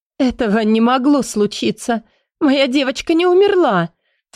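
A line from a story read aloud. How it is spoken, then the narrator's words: Sobbing insistent repetition. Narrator (Russian): твердила баронесса, рыдая на плече мужа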